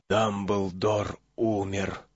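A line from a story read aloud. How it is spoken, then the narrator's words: Whisper. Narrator (Russian): прошептал господин Уизли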